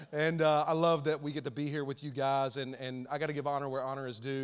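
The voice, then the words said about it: Southern Alabama accent. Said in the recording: “We're Alabama folks, and so you might hear that in my accent. ... that accent.”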